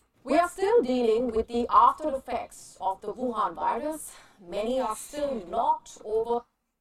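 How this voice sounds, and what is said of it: Strong accent. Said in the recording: “she's got that strong accent,”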